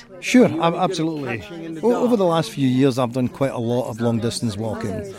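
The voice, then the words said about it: Scottish accent. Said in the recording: “Scotland. ... That is a fabulous accent you have.”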